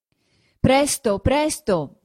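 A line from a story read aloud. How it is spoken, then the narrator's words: Urgent shouting from inside. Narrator (Italian): diceva anche Ferrer di dentro, sotto il portico, gridando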